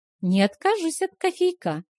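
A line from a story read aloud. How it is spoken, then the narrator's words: Cheerful. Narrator (Russian): весело проговорила Леа Руан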